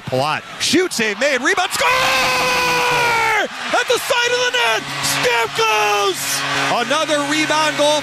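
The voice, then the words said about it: Energetic screaming play-by-play call. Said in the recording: “you love the accents ... You love the screaming. You love the energy.”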